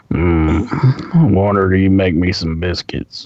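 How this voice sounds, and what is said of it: Imitates a film character's voice. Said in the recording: “Carl from Sling Blade ... you do a good impression of it”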